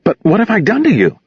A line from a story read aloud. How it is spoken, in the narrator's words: Jan asked desperately